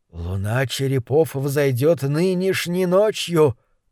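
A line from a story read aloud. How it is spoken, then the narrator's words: Prisoner's mutter. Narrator (Russian): пробормотал узник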